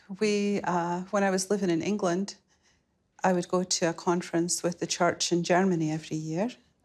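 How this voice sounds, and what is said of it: Scottish accent. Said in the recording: “beautiful Scottish lilt”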